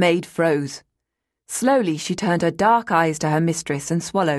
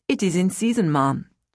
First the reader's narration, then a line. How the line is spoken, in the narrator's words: she replied evenly